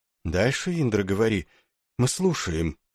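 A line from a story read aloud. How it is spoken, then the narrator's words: Whispered. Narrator (Russian): прошептал он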